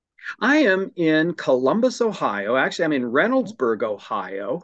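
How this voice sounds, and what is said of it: American accent. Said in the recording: “the accent that you're from across the pond”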